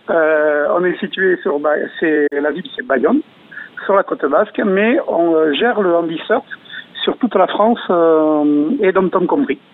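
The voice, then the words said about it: Singsong southwestern French accent. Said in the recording (French): “Ça s'entend à votre accent... c'est un accent qui chante”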